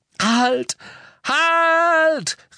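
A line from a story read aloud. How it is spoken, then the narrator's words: Called out. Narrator (German): rief Harry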